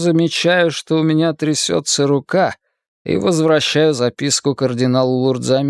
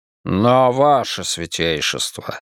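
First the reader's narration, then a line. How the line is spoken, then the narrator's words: Irritated. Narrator (Russian): раздраженно говорит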